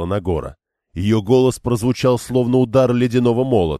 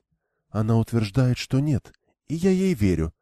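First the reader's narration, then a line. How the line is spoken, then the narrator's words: Whispered. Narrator (Russian): прошептала Эгвейн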